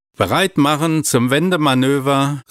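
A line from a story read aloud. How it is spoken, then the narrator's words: Interrupting call. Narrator (German): rief Juliane dazwischen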